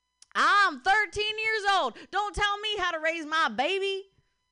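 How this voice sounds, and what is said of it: Put-on country accent. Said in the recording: “can you say something to me, but like in a country accent? ... I'll try.”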